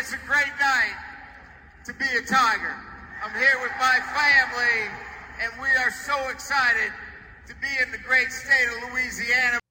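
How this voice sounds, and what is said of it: Fake put-on accent. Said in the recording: “the fake accent”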